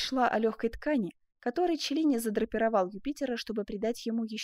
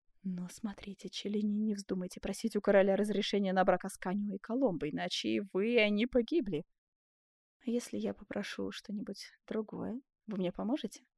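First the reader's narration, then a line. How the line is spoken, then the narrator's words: Whispered question. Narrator (Russian): Так же шепотом спросил Бенвенуто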